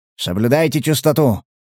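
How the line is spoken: Grumbling. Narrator (Russian): проворчал охранник

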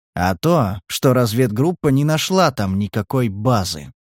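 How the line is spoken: Quiet, insinuating male voice. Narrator (Russian): тихо и вкрадчиво выговорил человек

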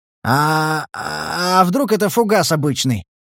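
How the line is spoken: Uncertain guess. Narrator (Russian): неуверенно предположил он

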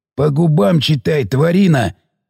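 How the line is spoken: Stubborn hoarse voice. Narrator (Russian): не сдавался сиплый

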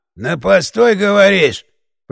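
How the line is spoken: Wheezing voice drawing closer. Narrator (Russian): просипел голос, приблизившись

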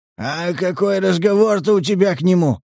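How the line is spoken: Hoarse, uncleared throat. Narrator (Russian): продолжил Захар сиплым голосом, так и не откашлявшись

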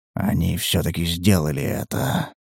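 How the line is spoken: Whisper. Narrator (Russian): прошептал сидящий рядом на корточках охотник

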